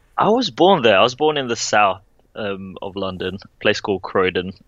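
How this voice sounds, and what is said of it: British accent. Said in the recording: “you quite obviously have a British accent”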